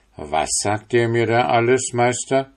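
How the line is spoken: Clergyman calling out. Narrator (German): rief der geistliche Herr

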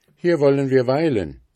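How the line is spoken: Called out. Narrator (German): rief

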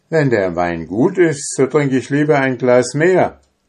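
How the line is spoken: Calling out. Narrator (German): rief er

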